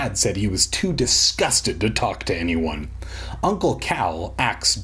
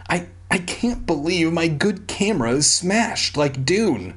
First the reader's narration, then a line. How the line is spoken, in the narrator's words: he whimpered